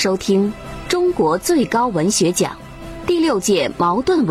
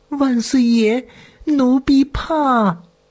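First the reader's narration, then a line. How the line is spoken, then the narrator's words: Quiet, timid. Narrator (Chinese): 月珍小声在说着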